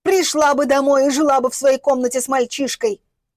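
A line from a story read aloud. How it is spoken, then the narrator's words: Angry yelling. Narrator (Russian): орала на нее Галя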